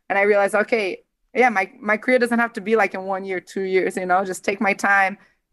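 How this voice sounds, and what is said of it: Speaks with a foreign accent. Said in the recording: “the accent. It's authentic and perfect.”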